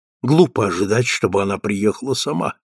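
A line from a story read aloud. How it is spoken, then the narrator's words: Mutter. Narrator (Russian): пробормотал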